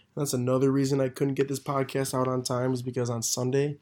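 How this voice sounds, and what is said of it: Hoarse, strained, partly lost voice. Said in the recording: “sorry for my voice, by the way. I lost my voice over the weekend.”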